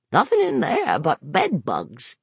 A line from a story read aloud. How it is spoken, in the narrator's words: Gary said and cackled again